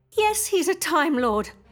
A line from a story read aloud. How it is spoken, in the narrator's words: I snapped close to tears